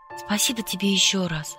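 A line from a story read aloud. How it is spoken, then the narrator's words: Whisper. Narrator (Russian): шепнула я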